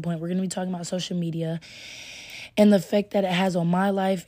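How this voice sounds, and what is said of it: Strained, partly lost voice. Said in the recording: “My voice is gone a little bit, but so if it sounds like I'm straining, I am.”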